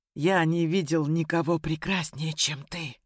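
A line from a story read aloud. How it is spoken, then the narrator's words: Whispered. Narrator (Russian): прошептал Ян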